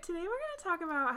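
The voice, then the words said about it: High-pitched girlish phone voice. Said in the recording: “I was using my phone voice, which makes me sound like a 12-year-old girl ... your voice sounds so stupid”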